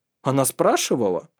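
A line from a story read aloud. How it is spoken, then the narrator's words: Sharp exclamation. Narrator (Russian): резко воскликнул Калгрим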